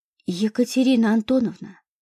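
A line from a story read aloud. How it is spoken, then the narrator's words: Hoarse call. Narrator (Russian): позвала я севшим голосом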